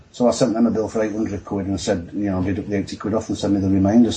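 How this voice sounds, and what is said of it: Yorkshire accent, fast speech. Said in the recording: “nice Yorkshire accent ... Can they understand my accent? ... I tend to get excited and talk too fast”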